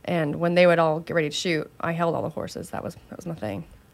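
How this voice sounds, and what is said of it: Slight country accent. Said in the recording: “she had a little accent when she said that was my thing. ... I get a little country.”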